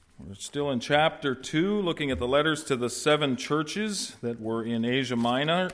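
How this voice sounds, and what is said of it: Slight New England accent. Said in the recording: “A little bit of New England accent there”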